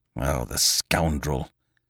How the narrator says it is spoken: muttered Lupin

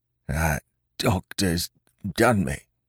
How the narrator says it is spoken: he murmured

